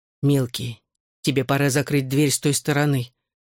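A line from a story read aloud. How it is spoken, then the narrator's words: Sighing interjection. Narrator (Russian): вздохнув, вмешался в разговор Хьюи Бикс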